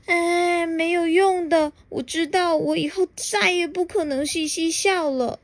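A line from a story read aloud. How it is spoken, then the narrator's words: Sad, sighing. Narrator (Chinese): 他难过的蒙住双眼，叹了一口气，说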